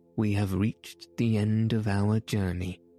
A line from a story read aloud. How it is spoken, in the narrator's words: said the worthy professor, in a satisfied tone